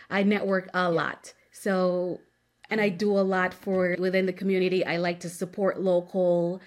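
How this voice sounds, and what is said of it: Caribbean accent. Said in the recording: “I'm an island girl ... I'm from the Caribbean. I don't sound like everybody else. I have my little accent there, here and there.”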